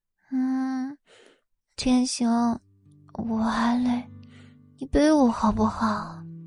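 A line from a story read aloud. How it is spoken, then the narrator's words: Sleepy mumble. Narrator (Chinese): 宋冉以为自己在做梦，嘴里嘟囔着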